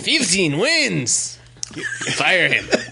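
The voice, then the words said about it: Put-on Hispanic accent. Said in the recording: “He was like Hispanic in that accent.”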